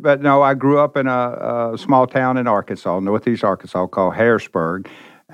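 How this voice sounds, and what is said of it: Memphis, Tennessee American accent. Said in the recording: “You're not from Scotland now, and people are going to love your accent ... I'm from Memphis, Tennessee”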